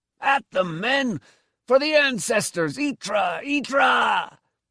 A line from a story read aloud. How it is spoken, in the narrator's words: Torm was charging on, shouting